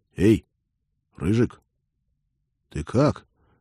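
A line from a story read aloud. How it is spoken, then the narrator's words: Quiet hopeless call. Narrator (Russian): негромко, безнадежно окликнул он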